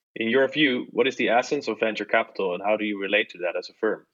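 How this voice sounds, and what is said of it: Dutch accent. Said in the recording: “in my Dutch accent”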